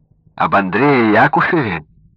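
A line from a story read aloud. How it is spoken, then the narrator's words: Exclamation. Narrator (Russian): воскликнул Яков Изучеев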